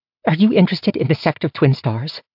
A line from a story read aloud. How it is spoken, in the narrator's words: she asked excitedly